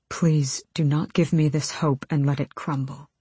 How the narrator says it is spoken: he said hoarsely

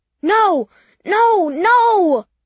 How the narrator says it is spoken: I thought it sounded like Charlie's voice shouting

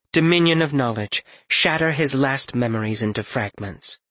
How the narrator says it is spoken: she said

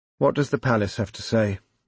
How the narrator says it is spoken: the editor inquired wearily

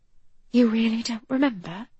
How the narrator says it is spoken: I whisper seductively into his ear

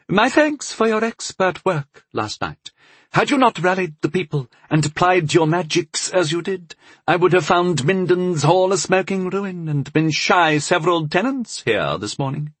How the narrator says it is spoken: the Lord of Bovall said around his pipe stem in his high, reedy voice

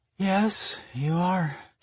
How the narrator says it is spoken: she murmured on a yawn

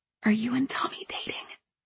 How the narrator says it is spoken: I whispered to Allegra

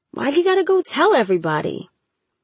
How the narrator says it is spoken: He grumbled

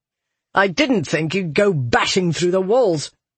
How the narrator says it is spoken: Toron snapped

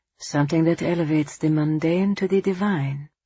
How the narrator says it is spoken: Angelo murmured

